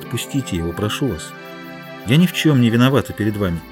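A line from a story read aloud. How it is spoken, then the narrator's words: Gentle. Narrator (Russian): Гутьерре ласково сказала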